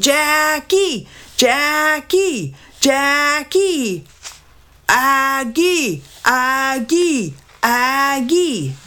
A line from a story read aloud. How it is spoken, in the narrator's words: Dad screamed